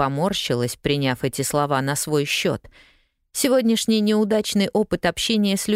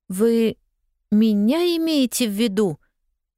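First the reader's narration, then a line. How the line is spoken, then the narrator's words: Stammering question. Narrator (Russian): запинаясь, спросила она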